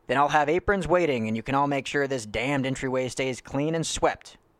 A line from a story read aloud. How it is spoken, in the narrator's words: Ned yelled conveniently